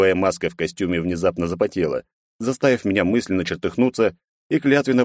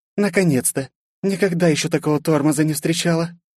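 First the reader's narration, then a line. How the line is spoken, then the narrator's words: Breathless woman. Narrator (Russian): Выдохнула начальница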